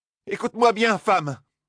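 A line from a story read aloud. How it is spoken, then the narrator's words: Shouted. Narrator (French): cria Moiraine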